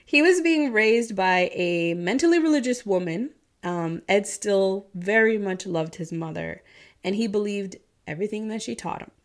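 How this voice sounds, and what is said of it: Midwestern accent with Southern twang. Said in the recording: “My Midwestern accent is like intertwined with a Southern twang.”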